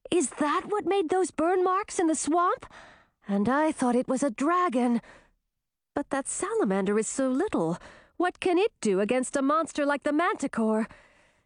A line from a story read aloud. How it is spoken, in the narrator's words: gasped